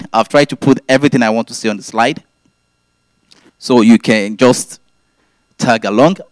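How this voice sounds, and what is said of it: Speaks with a noticeable accent. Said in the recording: “you are familiar with my accent”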